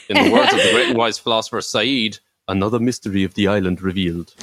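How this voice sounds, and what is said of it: Put-on accent imitating a TV character. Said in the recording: “Well done on that accent.”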